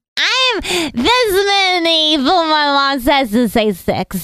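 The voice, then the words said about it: Little girl voice. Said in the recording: “little girl voice”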